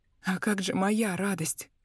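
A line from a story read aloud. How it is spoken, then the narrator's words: Hoarse rasp. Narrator (Russian): прохрипела я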